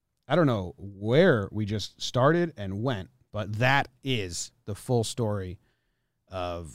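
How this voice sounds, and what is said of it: Usual voice. Nothing is said of it.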